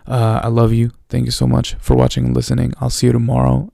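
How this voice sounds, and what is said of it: Unusually deep voice. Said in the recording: “My voice is really deep right now. I'm not sure why”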